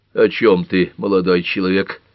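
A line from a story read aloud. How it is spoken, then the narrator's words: Grumbling. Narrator (Russian): проворчал Тальбот Фокс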